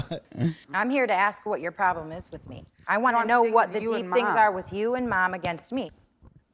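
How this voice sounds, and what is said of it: Bad Italian-Boston sounding accent. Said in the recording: “their accent is fucking terrible ... it's like if it's Italian Boston, almost. It's bad. ... Atrocious.”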